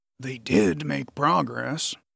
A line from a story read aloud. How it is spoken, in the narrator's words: Radric whispered into his ear